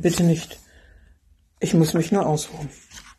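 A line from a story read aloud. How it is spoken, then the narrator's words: Groaning. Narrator (German): stöhnte er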